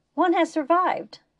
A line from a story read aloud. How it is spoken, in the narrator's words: Inish exclaimed